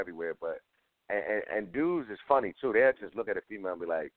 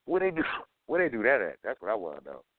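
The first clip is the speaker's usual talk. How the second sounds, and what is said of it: Sarcastic tone. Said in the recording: “I'm being sarcastic”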